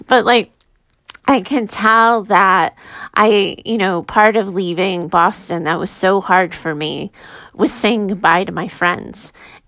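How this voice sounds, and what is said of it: Tearful, emotional voice. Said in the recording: “I'm getting emotional. ... I'm always crying on my own show.”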